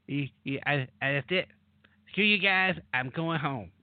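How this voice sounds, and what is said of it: Cartoon character voice impression. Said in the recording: “sound like Cartman ... my various voices are now being critiqued”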